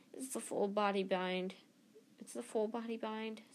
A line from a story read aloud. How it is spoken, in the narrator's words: said Hermione miserably